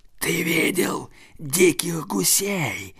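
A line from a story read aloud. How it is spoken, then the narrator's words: Hissing. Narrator (Russian): прошипела она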